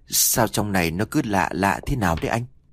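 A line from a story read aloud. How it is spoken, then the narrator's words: Timid soft voice. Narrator (Vietnamese): Trâm là một đứa nhát gan hơn cả, khẽ nói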